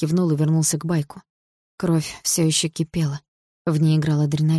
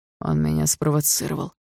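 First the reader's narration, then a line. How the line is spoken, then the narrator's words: Through gritted teeth. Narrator (Russian): сквозь зубы сказал Барс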